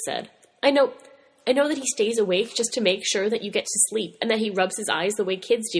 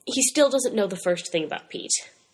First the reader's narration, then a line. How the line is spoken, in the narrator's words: Mikey said calmly